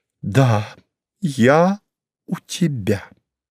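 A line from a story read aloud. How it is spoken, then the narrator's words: Slow repetition. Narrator (Russian): медленно повторила Мария Федоровна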